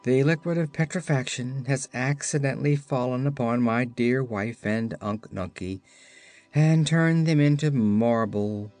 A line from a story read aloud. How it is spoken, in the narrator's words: he sadly replied